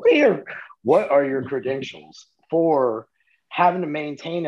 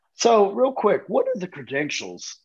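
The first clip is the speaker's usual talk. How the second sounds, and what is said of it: Voice suddenly jumps higher in pitch. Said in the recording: “my voice just shot up there.”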